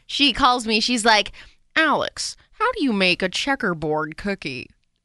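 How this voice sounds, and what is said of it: Good Martha Stewart impersonation. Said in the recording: “that was a good impersonation”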